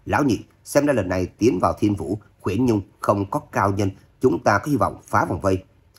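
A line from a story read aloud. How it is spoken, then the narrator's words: Loud shout. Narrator (Vietnamese): Độc Cô Phong cao giọng quát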